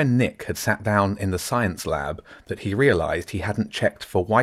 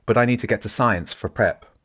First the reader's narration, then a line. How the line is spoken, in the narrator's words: Nick said quickly